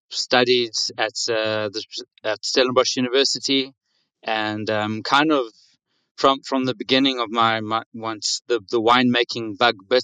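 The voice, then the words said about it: South African English accent. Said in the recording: “as you can hear from my accent, I'm I'm not from. Uh, I don't have the typical uh, Grevigiana accent ... I'm born and raised in South Africa”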